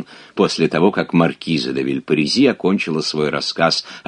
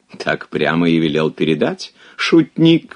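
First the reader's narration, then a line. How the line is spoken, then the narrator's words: Exclaiming, bursting into laughter. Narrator (Russian): воскликнул и закатился хохотом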